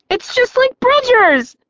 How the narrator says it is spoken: Lucy yelped

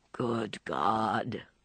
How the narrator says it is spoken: He groaned again

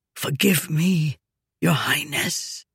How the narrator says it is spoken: whispered

